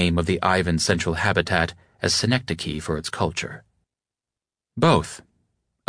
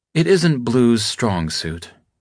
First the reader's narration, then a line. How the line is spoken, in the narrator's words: Arjun sighed